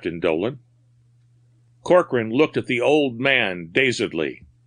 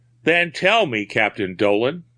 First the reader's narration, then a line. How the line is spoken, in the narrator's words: said